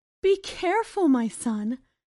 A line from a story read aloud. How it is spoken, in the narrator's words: his mother begged, still in shock at the amazing sight of the huge beanstalk before her